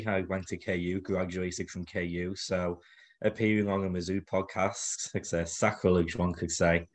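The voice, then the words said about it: Liverpool English accent. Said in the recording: “as you can tell by my accent, I'm not from around these parks. So born and raised Liverpool”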